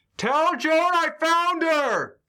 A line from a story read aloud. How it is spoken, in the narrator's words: I just shout